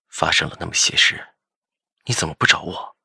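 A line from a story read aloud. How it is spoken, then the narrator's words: Low-voiced question. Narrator (Chinese): 低声问着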